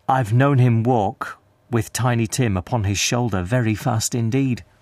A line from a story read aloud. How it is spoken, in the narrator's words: she said, in a steady voice that only faltered once